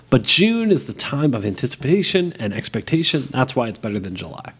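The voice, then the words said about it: Salesy advertising-pitch delivery. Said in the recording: “You sounded like a bad advertising executive or something”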